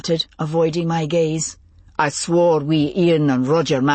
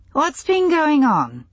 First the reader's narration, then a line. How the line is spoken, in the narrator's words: He sighed